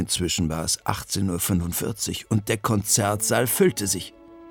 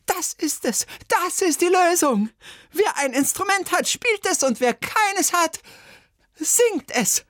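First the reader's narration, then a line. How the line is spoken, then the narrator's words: Shout. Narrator (German): Bertha Schüssel aber schrie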